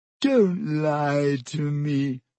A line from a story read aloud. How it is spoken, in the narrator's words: Myrtle gasped, tears now flooding down her face